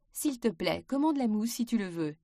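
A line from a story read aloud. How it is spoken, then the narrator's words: Plain. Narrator (French): dit-elle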